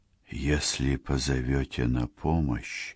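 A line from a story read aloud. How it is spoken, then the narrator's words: Breathy whisper. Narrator (Russian): с придыханием прошептал кудесник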